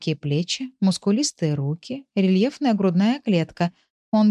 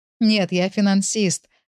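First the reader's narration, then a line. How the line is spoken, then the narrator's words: Laughing. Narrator (Russian): рассмеялся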